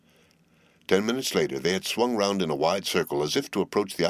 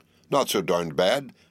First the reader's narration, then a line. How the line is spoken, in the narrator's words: cried Carlyle excitedly